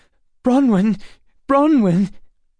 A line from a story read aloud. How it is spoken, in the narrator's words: Emma gasped